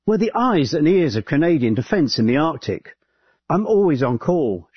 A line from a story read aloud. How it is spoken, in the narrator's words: says